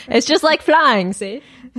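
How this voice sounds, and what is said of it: 1920s-style put-on accent. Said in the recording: “In a 1920s accent, please.”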